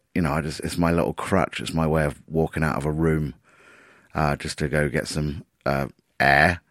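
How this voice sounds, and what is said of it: Wrecked, hoarse voice. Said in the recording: “My voice might be a little bit wrecked. I really need to give up smoking.”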